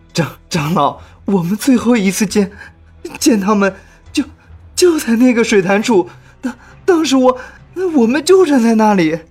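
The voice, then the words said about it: Trembling, stammering frightened voice. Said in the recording (Chinese): “用颤抖的声音说”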